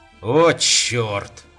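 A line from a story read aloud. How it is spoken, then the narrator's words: Growling. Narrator (Russian): зарычал Рубен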